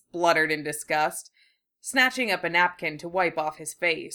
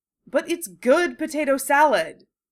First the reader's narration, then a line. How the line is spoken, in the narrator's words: Draco exclaimed without thinking